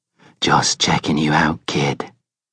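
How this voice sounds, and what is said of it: Coarse soft Irish-accented voice. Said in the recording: “a voice, coarse but soft, an Irish accent, right above him, breathing heavily”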